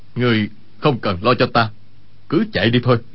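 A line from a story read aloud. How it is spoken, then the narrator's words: Lowered voice. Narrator (Vietnamese): Y hạ giọng nói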